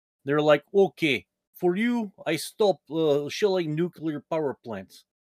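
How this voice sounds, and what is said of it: Imitates a Russian-accented voice. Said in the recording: “that's a really good Vladimir Putin impression ... That's actually very good. ... Russian accents, I'm pretty decent at.”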